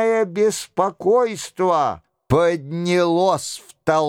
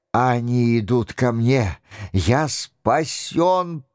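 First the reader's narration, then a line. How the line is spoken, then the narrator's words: Whispered. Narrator (Russian): прошептал Монте-Куколи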